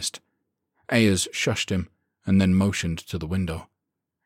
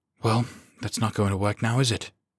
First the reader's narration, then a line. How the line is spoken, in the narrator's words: he muttered